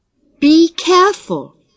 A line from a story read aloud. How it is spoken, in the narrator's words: anxiously warned